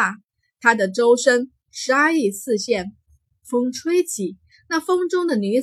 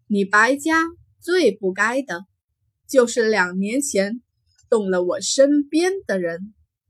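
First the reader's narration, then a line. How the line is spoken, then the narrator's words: Cold laugh. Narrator (Chinese): 惊鸿冷冷一笑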